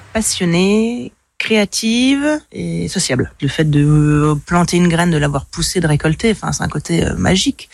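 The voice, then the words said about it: Strong regional French accent. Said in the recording (French): “Avec un accent qui dépote de bon matin”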